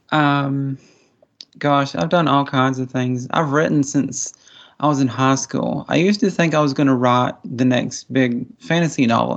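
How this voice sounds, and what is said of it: Appalachian American accent. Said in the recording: “I was raised, you know, in the Appalachian Mountains. I'm kind of a hillbilly, as you can probably tell by my accent.”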